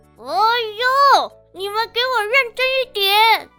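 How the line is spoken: Anxious yell. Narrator (Chinese): 雪藏兔急着大叫

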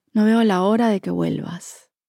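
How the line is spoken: Sighing. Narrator (Spanish): Cada vez que Gaby tenía un mal día, cuando discutía con su familia o su jefe le hacía una pataleta, suspiraba y me decía

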